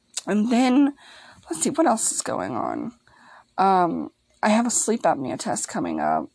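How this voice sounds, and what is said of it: Slightly raspy voice. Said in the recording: “If I sound a little raspy, that's my allergies talking”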